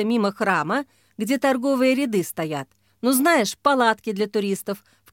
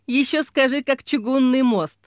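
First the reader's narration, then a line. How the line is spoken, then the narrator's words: Laughing. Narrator (Russian): засмеялась Ксения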